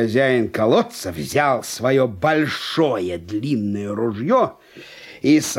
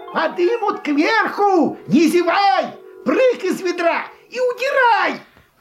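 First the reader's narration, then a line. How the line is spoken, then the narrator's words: Shouting downward. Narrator (Russian): крикнул вниз братцу лису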